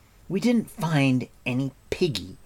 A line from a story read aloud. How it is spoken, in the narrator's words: Terran replied angrily